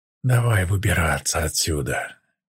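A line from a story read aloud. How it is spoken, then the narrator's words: Quiet. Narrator (Russian): тихо сказал Тай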